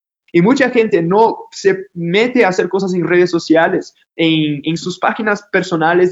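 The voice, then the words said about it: Brazilian Portuguese accent in Spanish. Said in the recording (Spanish): “yo soy de Brasil, ya se dieron cuenta por mi acento”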